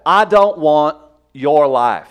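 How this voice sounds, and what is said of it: Attempted Texas accent. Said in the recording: “I can't do a Texas accent. Was that believable ... That was not bad.”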